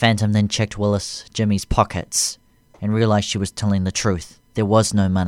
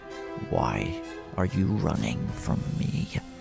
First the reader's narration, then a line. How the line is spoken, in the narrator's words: asked her in his deep, sinister voice